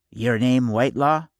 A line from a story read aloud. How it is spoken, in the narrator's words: he asked, in a reedy tenor voice